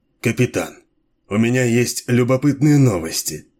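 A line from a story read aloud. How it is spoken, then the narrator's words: Dry. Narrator (Russian): сказал он сухо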